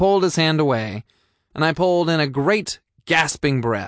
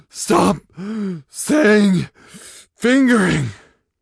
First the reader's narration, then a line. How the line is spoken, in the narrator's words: I panted